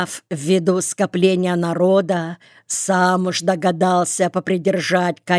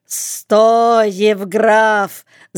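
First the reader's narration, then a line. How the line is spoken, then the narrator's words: Shouting in chorus. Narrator (Russian): закричали все хором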